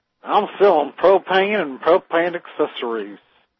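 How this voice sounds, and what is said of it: Hank Hill cartoon character impression. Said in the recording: “Thank you, Mr. Hank Hill. ... If you're Hank Hill, it's propane.”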